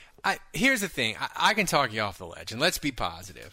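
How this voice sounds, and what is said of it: Usual voice. Nothing is said of it.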